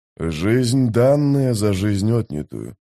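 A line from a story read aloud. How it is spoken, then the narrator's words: Mumbled. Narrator (Russian): пробормотал Маппо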